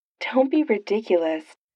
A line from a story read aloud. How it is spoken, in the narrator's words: Tony says